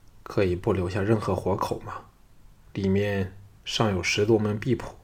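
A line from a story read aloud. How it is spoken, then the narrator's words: Grim, deep voice. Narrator (Chinese): 韩闯脸色阴沉，半晌后沉声说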